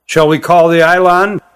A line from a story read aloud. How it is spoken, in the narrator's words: he asked